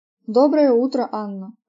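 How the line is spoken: Joyful exclamation. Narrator (Russian): радостно воскликнул Льюис

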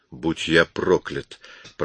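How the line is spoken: Muttering. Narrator (Russian): пробормотал Коридон

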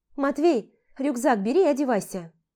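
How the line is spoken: Shouted. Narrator (Russian): крикнула

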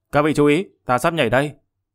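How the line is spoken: Angry loud shout. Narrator (Vietnamese): Hắn tức giận hừ lên một tiếng, lớn tiếng kêu to

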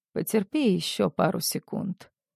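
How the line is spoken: Gentle. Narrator (Russian): мягко произносит он

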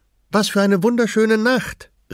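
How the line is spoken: Calling out. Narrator (German): rief Addie

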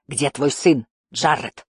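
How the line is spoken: Barked. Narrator (Russian): рявкнул он

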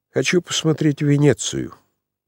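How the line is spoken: Smirk, then glum murmur. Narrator (Russian): усмехнулся было царевич, но тотчас прибавил уныло и тихо, как будто про себя

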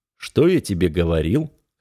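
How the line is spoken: Snorting hmph. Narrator (Russian): хмыкнул

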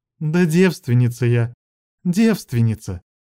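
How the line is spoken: Tired, smiling. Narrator (Russian): Устало улыбаясь, сказала Лилия

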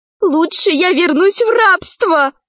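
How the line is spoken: Exclaiming. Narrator (Russian): воскликнула Заури

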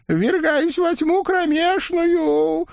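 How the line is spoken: Moaned farewell. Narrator (Russian): успел простонать на прощание Осип Никифорович

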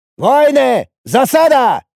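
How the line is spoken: Shout. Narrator (Russian): выкрикнул я

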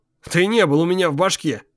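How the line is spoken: Snorted. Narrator (Russian): хмыкнул Энгельс

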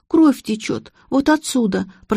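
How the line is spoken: Moaned. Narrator (Russian): простонала Олеся

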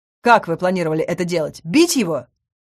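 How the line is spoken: Angry growl. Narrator (Russian): Зарычал Сальен

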